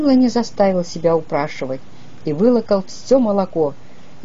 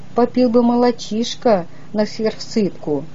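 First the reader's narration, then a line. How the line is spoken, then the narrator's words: Timid request. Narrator (Russian): Дядя Кузя робко попросил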